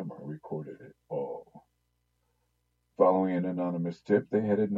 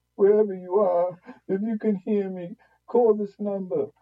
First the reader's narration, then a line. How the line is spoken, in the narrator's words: the wife pleaded